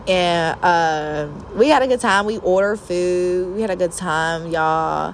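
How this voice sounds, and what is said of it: Southern country accent. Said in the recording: “you sound like you from Alabama ... I sound like I'm from Alabama. I do sound a little country”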